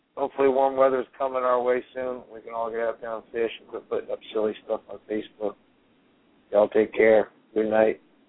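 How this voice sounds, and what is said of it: Strained, fading voice. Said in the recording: “I can barely talk. I'm losing my voice”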